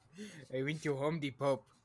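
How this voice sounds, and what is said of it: Silly put-on voice, unidentified accent. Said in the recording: “that accent's a little risque ... I'm just doing a stupid voice.”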